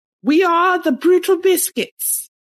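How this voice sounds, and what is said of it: Put-on British accent. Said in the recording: “It's a British accent I did once.”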